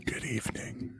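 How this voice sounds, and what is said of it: Sexy, seductive voice. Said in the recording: “Sexy voice,”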